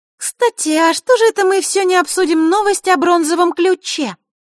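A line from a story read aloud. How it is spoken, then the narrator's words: Innocent little voice. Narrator (Russian): невинным голосочком спросила Захарра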